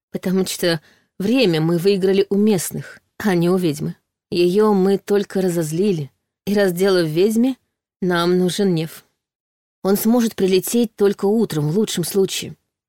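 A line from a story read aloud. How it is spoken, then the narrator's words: Sighing. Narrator (Russian): вздохнула Саша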